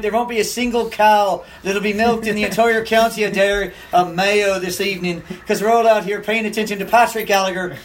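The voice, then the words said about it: Put-on Irish accent. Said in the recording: “that same accent ... the Irish accent”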